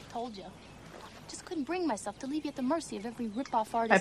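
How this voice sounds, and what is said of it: Queens New York accent. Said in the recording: “She's from Queens ... can't you tell by her accent?”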